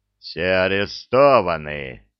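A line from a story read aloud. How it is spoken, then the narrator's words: Deep bass voice. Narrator (Russian): басом повторил Простаков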